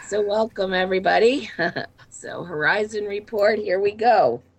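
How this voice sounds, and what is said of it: Sick, low sexy-sounding voice. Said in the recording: “is sick ... I have my lovely, sexy telephone voice this evening”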